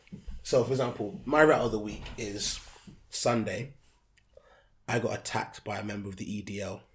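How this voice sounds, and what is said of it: Hoarse, croaky throat. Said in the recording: “I've got a frog in my throat.”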